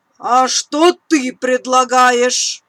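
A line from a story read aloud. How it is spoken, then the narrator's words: Grumbling owl. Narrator (Russian): проворчала белая сова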